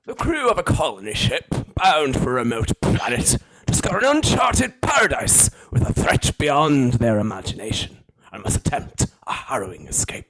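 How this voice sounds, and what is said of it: Generic old boring English accent. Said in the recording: “Michael Fassbender's old English accent ... most boring English ... a nice generic old boring English accent”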